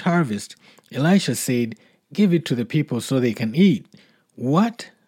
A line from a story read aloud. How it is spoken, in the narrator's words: his servant exclaimed